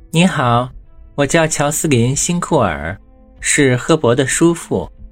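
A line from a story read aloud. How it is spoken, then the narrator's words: Smiling, friendly. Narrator (Chinese): 乔斯林辛库尔微笑的友好的说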